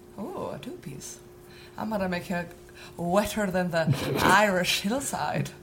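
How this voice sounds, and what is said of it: Put-on Irish accent. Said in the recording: “talking sexy doesn't really work with that particular accent ... You're telling me that the whole of Ireland can talk dirty?”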